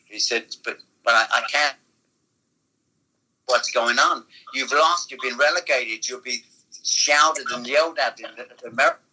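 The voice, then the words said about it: Attempted American accent sounding Welsh. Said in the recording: “I'm glad my Welsh accent came over so well. It's not usually that good. ... This should be my American accent.”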